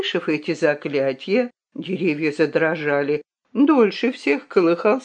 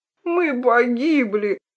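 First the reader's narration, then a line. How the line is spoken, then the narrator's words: Moaning in despair. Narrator (Russian): простонал мышебрат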